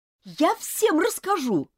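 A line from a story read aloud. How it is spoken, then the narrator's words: Shouting. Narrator (Russian): крикнула Элизабет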